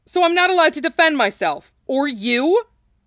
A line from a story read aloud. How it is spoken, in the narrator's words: Cloud exclaimed, both angry and ashamed